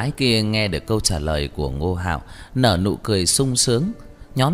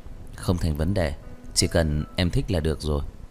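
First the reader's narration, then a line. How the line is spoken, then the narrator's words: Gentle, tender. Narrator (Vietnamese): nhẹ nhàng, dịu dàng nói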